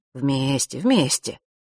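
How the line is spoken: Gentle agreement. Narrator (Russian): ласково согласился он чутко

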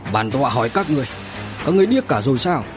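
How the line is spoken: Angry shout. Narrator (Vietnamese): người hỏi ban nãy tức giận quát

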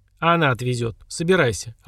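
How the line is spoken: Curt command. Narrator (Russian): отрывисто скомандовал Аруст

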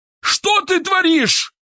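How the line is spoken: Angry yell. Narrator (Russian): заорал Киселев

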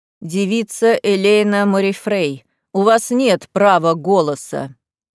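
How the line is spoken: Furious deep bass. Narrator (Russian): припечатал басом обвинитель, да так яростно

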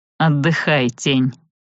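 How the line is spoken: Plain. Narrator (Russian): сказал он

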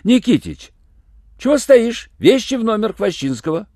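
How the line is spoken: Stern shout. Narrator (Russian): закричала строго швейцару

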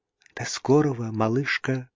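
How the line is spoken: Whispered. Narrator (Russian): шепнула Мэнли

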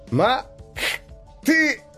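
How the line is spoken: Yelling through pain. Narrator (Russian): орал Макс, превозмогая боль

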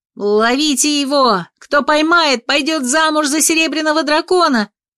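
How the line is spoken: Impulsive shout. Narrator (Russian): выкрикнула по наитию

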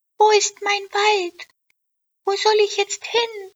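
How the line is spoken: Calling out. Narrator (German): rief

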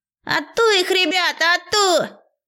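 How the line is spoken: Wild group yelling. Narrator (Russian): Дурным голосом возопили остальные собратья

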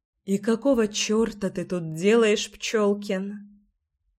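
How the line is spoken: Breathed out closely. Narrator (Russian): Выдохнула Леська в мой рот

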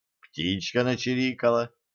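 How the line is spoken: Calm. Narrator (Russian): спокойно ответил Кощей

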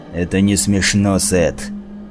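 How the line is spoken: Sudden angry snarl. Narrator (Russian): С неожиданной злостью рыкнул Реджис

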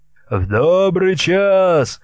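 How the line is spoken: Several voices shouting. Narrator (Russian): закричали иные казаки

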